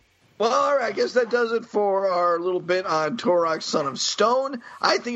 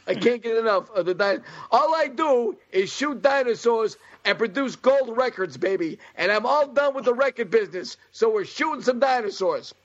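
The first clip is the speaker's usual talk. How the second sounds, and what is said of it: Christopher Walken impression, Brooklyn-sounding. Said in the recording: “We've just gone straight Brooklyn on Christopher Walken.”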